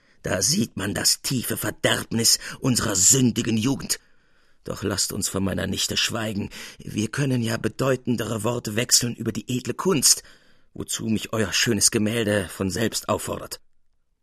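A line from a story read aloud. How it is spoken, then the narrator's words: Gruff. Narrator (German): Finster vor sich hinblickend sprach er barsch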